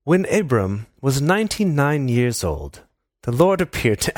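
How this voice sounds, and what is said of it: Reads aloud in a put-on accent. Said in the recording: “What is this accent?”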